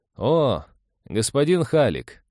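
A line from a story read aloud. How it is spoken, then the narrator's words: Greeting after laughing. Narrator (Russian): отсмеявшись, поприветствовал его Нейв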